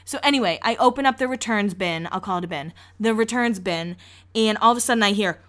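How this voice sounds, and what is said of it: Massachusetts accent. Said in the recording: “That's what we call it in Massachusetts ... I apologize for my accent last week, and there are just certain words that I can't say. Draw is one of them ... To me, I say draw.”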